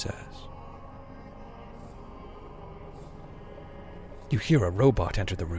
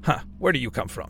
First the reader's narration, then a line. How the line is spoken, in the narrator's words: Tetsuo asks, chuckling